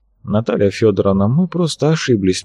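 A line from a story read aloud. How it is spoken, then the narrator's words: Soft repetition. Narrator (Russian): мягко повторил Богораз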